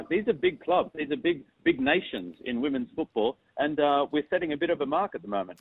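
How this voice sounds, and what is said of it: Strong Australian-sounding accent. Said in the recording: “I just detect a very strong accent there ... you sound like you're an Australian now”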